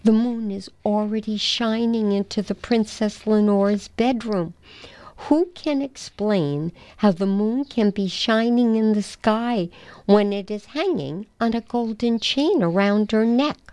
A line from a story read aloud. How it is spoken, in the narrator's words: he cried